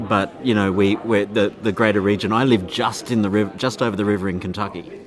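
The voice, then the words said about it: Kentucky accent. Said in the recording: “you do have an accent. ... This is a Kentucky accent.”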